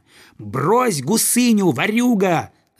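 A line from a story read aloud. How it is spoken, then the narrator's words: Boy shouting. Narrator (Russian): закричал ему мальчик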